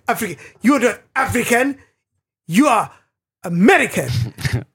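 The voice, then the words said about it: Put-on African accent. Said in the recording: “That's a wonderful accent.”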